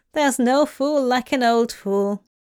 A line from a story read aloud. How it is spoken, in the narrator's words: the lad chuckled